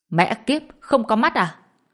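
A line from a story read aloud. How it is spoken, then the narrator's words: Loud shout. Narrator (Vietnamese): quát lớn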